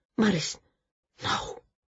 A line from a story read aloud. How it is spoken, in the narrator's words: she whispered